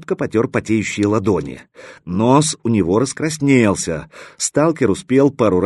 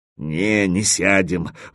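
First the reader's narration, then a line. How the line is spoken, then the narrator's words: Suddenly dejected voice. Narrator (Russian): вдруг упавшим голосом сказал Кирза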